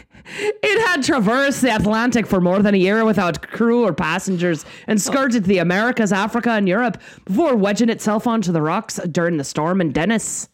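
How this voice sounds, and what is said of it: Put-on Irish accent. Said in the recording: “You're doing it again. ... your Irish accent is better than my actual Irish husband's accent.”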